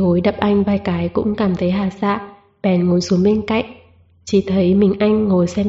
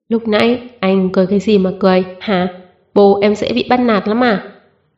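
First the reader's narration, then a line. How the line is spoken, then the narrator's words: Angry. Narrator (Vietnamese): Bí Hối giận dữ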